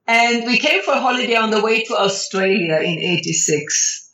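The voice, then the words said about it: Italian accent. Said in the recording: “the Italian accent”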